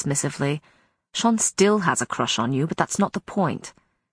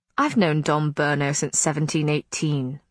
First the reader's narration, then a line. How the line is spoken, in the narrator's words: Matthew said dryly